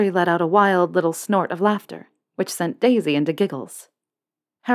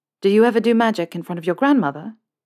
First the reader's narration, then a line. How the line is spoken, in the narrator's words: Harry asked